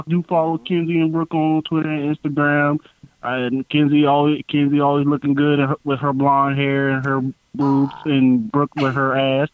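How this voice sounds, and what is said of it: American country accent. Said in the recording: “my country accent ... your country accent”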